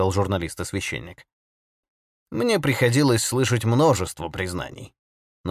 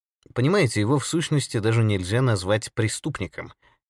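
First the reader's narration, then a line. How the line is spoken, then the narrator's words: Plain. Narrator (Russian): ответил Бирн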